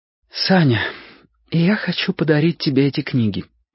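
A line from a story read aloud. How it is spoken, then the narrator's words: Slightly trembling voice. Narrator (Russian): сказала она немного дрожащим голосом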